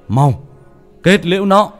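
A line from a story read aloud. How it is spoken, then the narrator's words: Urgent shout. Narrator (Vietnamese): Thầy Tư la lên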